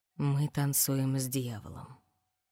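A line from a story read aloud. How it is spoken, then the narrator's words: Low-voiced reading. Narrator (Russian): прочитала она низким голосом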